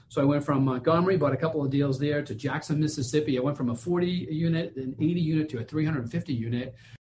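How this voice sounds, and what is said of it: Boston accent. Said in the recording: “I can tell you're not from around here with that accent ... I'm from Boston”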